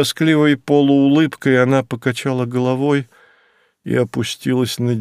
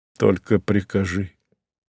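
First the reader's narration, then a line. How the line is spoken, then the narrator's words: Confused mutter. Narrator (Russian): сбивчиво пробормотал он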